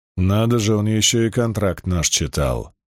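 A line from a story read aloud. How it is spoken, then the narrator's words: Grumbled mutter. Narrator (Russian): буркнул Ярдем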